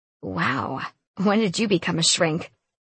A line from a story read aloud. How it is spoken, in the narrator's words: I chuckled